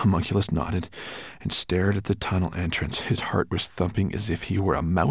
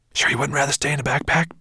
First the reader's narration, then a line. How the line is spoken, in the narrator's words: Ben whispered to him